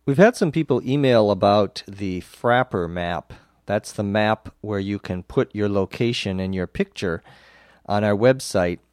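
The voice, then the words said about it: Slightly off, under-the-weather voice. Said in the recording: “under the weather ... I'm getting better and uh, my voice is still a little funny”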